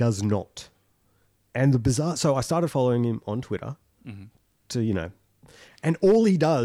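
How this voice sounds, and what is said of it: Usual voice. Nothing is said of it.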